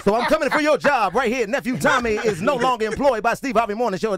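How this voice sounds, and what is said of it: Put-on radio announcer voice. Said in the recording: “I'm working on my radio voice”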